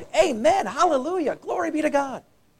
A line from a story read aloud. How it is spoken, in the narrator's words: they cried